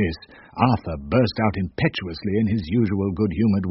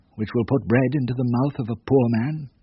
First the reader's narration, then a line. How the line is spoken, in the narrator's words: said bitterly